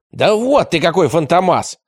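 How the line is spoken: Shouting. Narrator (Russian): крикнул Трембо

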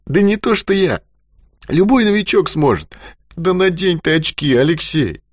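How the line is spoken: Sudden pained shout. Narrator (Russian): Страдающим голосом закричал он вдруг

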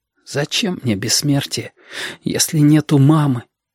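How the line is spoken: Whispered. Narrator (Russian): шепотом сказал ежики

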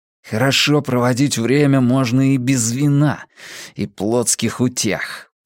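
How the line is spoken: Hiss. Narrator (Russian): прошипел Матиас

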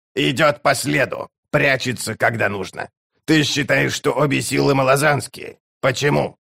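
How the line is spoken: Skeptical grunt. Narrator (Russian): Барук хмыкнул

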